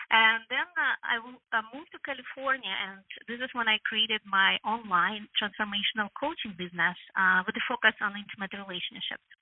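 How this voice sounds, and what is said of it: Ukrainian accent. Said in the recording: “I'm originally from Ukraine, so you can still hear my accent.”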